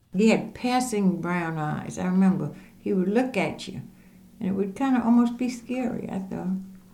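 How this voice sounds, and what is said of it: Pure Charleston accent. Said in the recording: “a pure Charleston accent”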